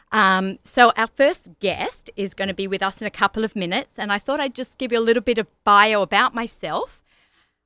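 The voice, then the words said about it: Australian accent. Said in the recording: “Nice accent. ... I'm actually born in Australia ... you all think that South Africans, Australians and English people all sound alike, but I am actually Australian”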